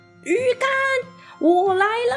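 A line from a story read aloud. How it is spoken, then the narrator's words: Yelling while running. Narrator (Chinese): 他边助跑啊，还边大叫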